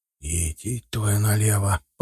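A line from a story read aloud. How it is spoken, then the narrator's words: Whisper. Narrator (Russian): прошептал я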